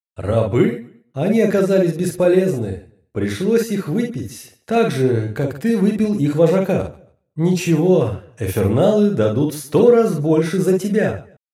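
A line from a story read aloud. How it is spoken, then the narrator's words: Laughing again. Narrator (Russian): Она вновь рассмеялась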